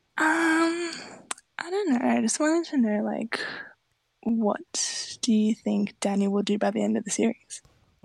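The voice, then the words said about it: Whispering. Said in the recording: “I have to whisper because it's nighttime here ... keeping the whispering up”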